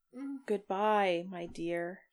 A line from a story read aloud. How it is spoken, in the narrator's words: murmured